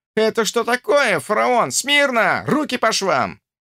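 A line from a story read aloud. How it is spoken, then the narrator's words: Shouted. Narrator (Russian): Павленко закричал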